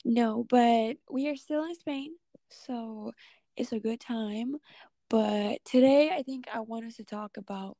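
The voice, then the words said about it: Hoarse, nearly lost voice. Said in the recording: “My voice has been gone for like 3 weeks now ... It's just gone.”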